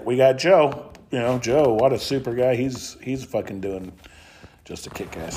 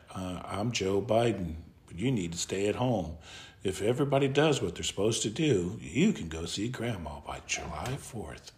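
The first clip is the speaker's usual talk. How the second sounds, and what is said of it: Soft, subtle whispery impersonation. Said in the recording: “talks in a very subtle voice, just like this ... who are you whispering to”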